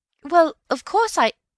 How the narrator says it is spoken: began Bill, stammering, and then ended lamely

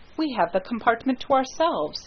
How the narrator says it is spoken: said Hastings

